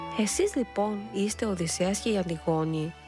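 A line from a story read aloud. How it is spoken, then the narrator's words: Smiling. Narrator (Greek): είπε χαμογελώντας η Φρουτοπάτρα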